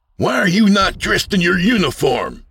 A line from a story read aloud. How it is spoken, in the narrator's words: Sid shouted